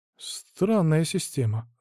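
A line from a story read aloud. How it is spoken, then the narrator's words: Sigh. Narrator (Russian): вздохнул я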